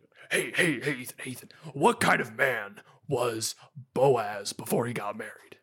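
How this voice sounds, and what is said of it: Imitates another person's voice. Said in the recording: “I have a good Dr. Scott Hahn ... really bad Han impression”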